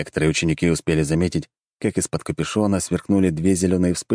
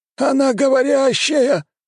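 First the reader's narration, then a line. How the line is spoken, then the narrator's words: Elders howling in astonishment. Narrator (Russian): взвыли старейшины, что даже никогда не слышали о подобном, и не догадывались, что так можно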